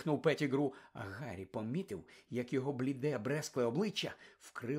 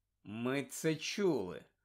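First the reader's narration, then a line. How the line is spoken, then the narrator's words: Cold interruption. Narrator (Ukrainian): холодно зупинив його Люпен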